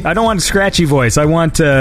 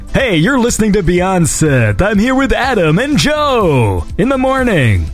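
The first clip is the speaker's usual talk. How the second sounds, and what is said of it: Mock radio DJ voice. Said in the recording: “do like a radio voice. I want us to all talk in radio voice”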